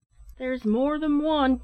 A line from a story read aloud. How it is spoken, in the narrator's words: cried another man